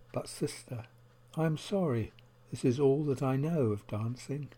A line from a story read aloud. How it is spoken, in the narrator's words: The friend looked down and quietly said